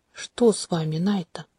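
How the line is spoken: Quiet question. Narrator (Russian): тихо спросил Тантаэ

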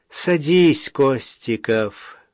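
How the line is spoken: Sighing. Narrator (Russian): вздохнула Ольга Алексеевна

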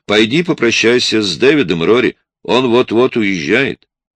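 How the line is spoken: Shout. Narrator (Russian): крикнула

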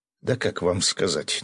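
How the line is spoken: Displeased grumble. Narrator (Russian): недовольно буркнул Влад

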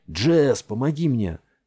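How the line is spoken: Shout. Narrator (Russian): крикнул Варинг

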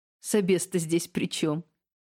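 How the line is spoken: Laughing. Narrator (Russian): рассмеялась я

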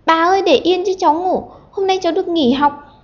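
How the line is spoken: Ticklish shriek. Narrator (Vietnamese): nhột quá, nó đành phải thét lên

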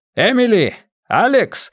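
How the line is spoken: Shouted across the room. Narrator (Russian): закричал он через всю комнату

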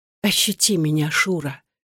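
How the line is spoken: Woman murmuring. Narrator (Russian): бормотала она

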